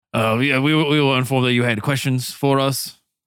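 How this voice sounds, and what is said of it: Character voice with put-on accent. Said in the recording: “it's hard to say it with this accent”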